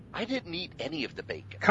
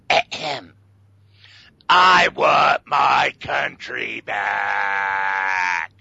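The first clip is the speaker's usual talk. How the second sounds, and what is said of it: Imitates another person's voice, strained. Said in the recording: “my Sergeant Slobber impersonation ... Sounds like you're a bit constipated”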